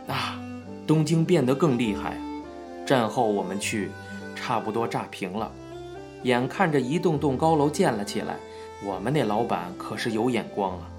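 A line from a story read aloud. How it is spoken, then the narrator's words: Sighing. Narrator (Chinese): 林茂雄叹道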